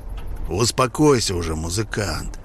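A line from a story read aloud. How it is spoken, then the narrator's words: Quiet but commanding. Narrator (Russian): Голос прозвучал тихо, но повелительно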